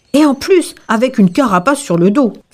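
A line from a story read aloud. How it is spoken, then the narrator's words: Boar shouting. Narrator (French): cria le sanglier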